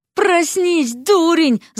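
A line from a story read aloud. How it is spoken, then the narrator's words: Yelling. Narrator (Russian): завопила Вася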